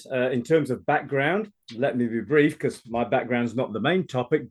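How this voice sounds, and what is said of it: Celtic British accent. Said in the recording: “you'll recognize the accent is slightly different. I'm obviously a Celtic British transplant”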